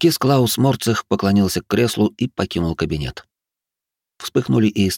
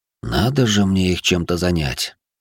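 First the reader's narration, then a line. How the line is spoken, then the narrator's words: Tired quiet voice. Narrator (Russian): устало прозвучал тихий голос императора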